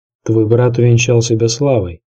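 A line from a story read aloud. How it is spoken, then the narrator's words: Plain. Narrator (Russian): сказал отец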